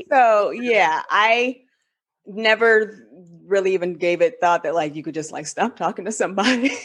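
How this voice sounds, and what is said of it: Spanish accent. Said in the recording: “you hear the Spanish accent that she has”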